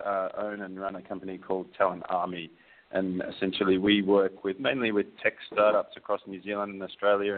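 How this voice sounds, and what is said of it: Australian accent mixed with New Zealand. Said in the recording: “I'm an Australian living in New Zealand. If you can't really understand my accent, it's because it's pretty screwed.”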